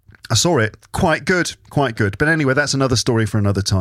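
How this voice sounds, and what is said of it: Usual voice. Nothing is said of it.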